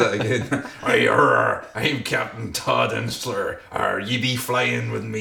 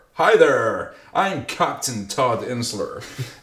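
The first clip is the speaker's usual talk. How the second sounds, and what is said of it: Piratey voice. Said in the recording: “I sounded a bit piratey there”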